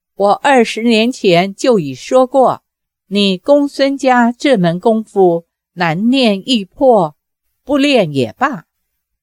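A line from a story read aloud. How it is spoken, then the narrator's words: Slow. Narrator (Chinese): 裘千尺缓缓地说道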